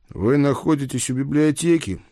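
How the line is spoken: Sighing. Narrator (Russian): вздохнул я

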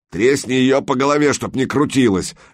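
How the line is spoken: Harsh bark. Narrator (Russian): рявкнул тот, который держал Санька на ноже

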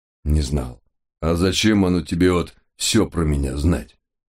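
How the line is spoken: Scoffing grunt. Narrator (Russian): Хмыкнул он

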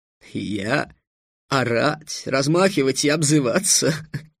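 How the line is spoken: Loud laughter. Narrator (Russian): Алхазаб захохотал

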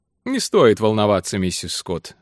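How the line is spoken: Carefree tone. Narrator (Russian): сказал Алленсон беззаботным тоном

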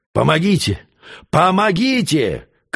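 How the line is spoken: Desperate, exhausted shouting. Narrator (Russian): кричал несчастный лесничий, силы которого истощились

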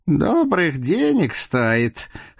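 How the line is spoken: Muffled snort. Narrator (Russian): хмыкнул в усы Прохор

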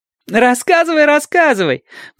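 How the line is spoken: Laughing demand. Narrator (Russian): потребовала Адати, смеясь

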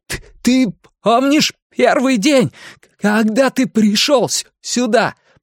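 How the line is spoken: Shouting over thunder. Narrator (Russian): прокричал Билл, перекрывая гром

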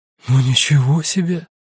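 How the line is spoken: Sighing. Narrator (Russian): вздохнула Сабина

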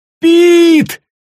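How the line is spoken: Yelled. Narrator (Russian): завопил Гаррити

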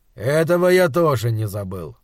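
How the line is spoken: Gloomy. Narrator (Russian): мрачно сказал доктор

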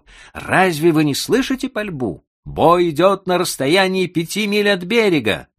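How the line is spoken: Shout. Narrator (Russian): Человек, который вышел первым, закричал

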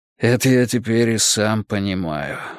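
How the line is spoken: Sighing. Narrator (Russian): вздохнул Николай Степанович

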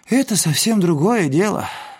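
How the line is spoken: Sad. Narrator (Russian): сказал грустно Эдик

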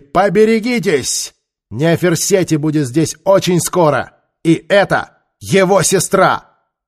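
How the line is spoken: Shout from a cage. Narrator (Russian): Ментака крикнула из клетки

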